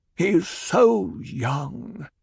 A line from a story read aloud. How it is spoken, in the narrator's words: the Baron sighed